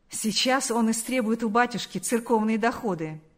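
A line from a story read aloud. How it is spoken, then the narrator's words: Laughing remark. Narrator (Russian): сказал кто-то, рассмеявшись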